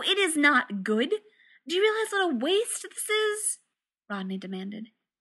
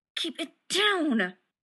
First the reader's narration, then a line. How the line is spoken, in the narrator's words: John hissed